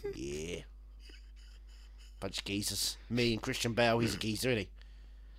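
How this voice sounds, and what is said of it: Usual voice. Nothing is said of it.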